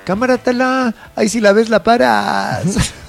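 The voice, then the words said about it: Put-on Mexico City chilango accent. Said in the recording (Spanish): “Es que todo es más divertido en acento chilango.”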